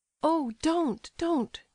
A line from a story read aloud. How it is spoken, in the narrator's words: she exclaimed in alarm